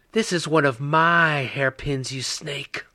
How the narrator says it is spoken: Vera growled

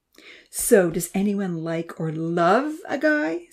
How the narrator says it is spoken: Santa giggled

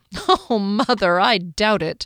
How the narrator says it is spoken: Fennel chuckled

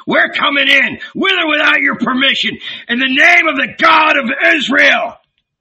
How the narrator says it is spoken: shouted

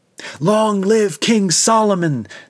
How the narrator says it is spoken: the people shouted

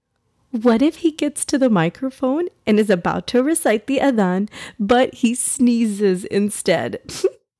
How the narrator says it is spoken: Salma said, giggling as she joined in on the fun

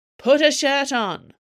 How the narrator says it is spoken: Carlotta yelled back to him

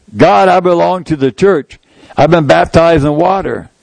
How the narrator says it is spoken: I cried a little louder

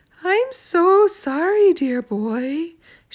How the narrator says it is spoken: she said dreamily

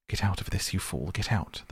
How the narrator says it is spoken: him mutter

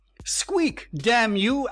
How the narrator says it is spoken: Asher shouted wildly

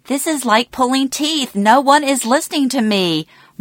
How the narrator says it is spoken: Mom would exclaim

